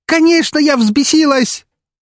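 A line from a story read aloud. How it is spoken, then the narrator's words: Furious near-shout. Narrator (Russian): практически выкрикнула Настя с горящими от ярости глазами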